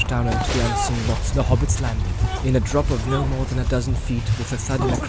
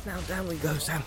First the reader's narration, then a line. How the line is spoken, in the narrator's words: Frodo whispered